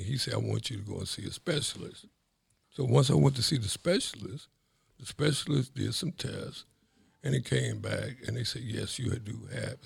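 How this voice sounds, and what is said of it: Slightly raspy voice. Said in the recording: “if you can tell by my voice, it's a little raspy”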